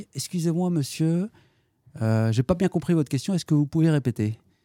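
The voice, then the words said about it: Put-on Marseille French accent. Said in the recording (French): “pouvez-vous nous faire l'accent marseillais ?”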